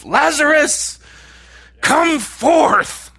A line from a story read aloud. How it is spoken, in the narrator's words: He yelled